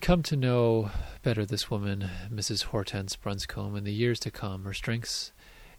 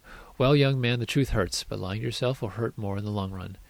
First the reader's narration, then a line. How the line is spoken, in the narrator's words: shrugged, and said in an exasperated tone